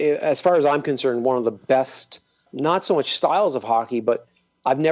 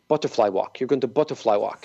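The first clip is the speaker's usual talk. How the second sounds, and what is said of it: Russian accent. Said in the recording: “in his Russian accent.”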